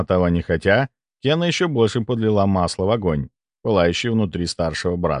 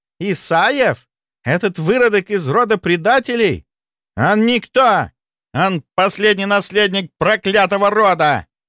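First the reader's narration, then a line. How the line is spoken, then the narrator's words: Furious barely restrained yell. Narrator (Russian): заорал Дугальд, с трудом сдерживаясь, чтобы не поджечь что-нибудь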